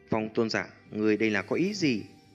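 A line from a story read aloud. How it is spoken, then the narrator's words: Restrained anger. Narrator (Vietnamese): Trong thanh âm của Lôi Tôn Giả ẩn hiện chút tức giận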